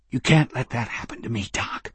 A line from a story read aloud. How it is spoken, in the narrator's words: Patrick said, his eyes watery, his voice strained